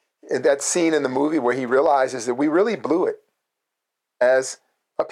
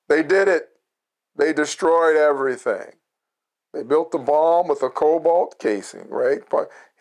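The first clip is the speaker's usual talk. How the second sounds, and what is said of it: Charlton Heston impression. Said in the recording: “Charlton Heston, that's my Charlton Heston imitation.”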